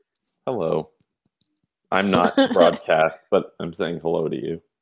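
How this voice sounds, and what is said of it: Slightly strange, sick-sounding voice. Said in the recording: “I've been a little under the weather and I feel like my voice is a little strange”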